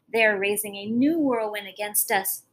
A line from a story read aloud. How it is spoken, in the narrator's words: gasped Fau